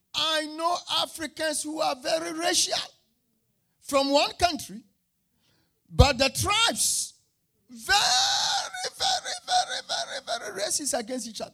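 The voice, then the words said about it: African accent. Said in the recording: “I grew up in Africa. My accent betrays me.”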